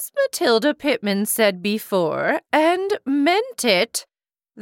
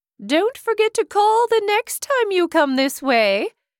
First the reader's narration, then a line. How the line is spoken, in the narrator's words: said cheerfully